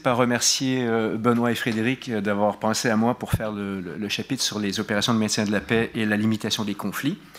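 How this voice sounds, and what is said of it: Québécois French accent. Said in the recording (French): “on passe à l'accent québécois euh, du Canadien de service”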